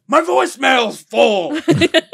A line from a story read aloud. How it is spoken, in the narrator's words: he heard Vince screaming